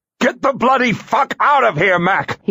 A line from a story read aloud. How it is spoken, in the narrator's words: he snarled